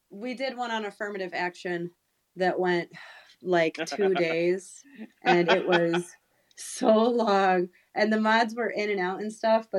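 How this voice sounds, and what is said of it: Congested, sick-sounding voice. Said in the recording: “I can hear it in her voice. Got some congestion going on.”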